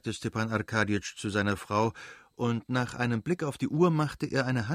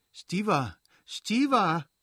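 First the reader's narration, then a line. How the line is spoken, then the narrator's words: Calling out, blushing. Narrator (German): rief Dolly errötend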